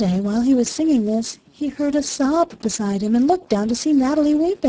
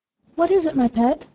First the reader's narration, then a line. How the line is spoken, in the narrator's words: he asked anxiously